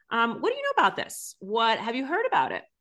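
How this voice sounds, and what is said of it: Relaxed, non-judgmental tone. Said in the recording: “Non-judgmental, relaxed. You heard my tone of voice.”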